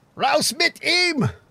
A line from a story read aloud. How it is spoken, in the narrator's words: screamed one into a cellar